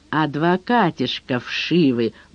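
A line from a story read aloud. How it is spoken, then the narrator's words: Gruff mutter. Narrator (Russian): буркнул выдр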